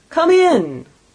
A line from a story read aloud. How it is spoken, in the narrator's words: exclaimed the ghost